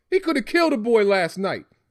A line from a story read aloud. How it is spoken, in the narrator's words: his father hollered